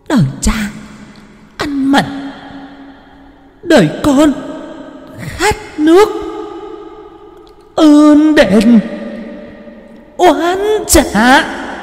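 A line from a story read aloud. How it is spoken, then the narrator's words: Crazed hissing woman. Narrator (Vietnamese): Người đàn bà điên dại, nhoẻn miệng cười mà rít lên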